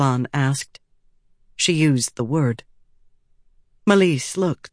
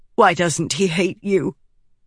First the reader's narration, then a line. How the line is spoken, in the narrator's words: Melisse said harshly